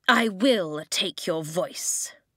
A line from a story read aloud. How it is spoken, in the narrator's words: she snarled